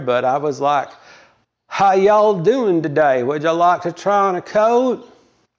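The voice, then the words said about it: Slow Southern US accent. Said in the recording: “So I started to talk slower. And my accent was better then when I lived down there ... Like I said, it was better back then.”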